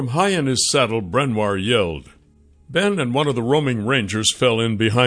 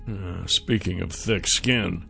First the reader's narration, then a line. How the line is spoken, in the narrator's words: Nath mumbled